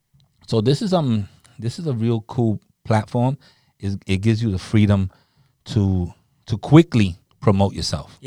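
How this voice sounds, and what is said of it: Deep radio voice. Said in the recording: “I have a good radio voice ... I got a little deeper, maybe. I sound a little like Barry White”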